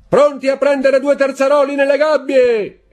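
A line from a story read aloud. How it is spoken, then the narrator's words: Captain's shouted order. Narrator (Italian): gridò il capitano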